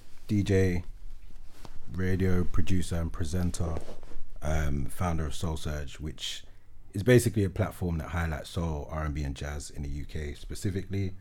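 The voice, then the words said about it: Smooth soulful radio presenter voice. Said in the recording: “the most amazing radio voice ... you can't be shouting when it's soul”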